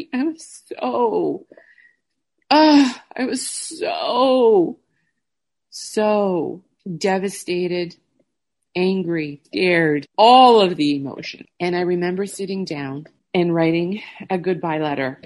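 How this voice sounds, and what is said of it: Teary, emotional, near-crying voice. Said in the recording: “I could cry now ... I'm getting teary eyed”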